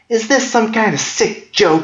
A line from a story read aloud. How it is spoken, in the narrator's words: She screamed at the top of her lungs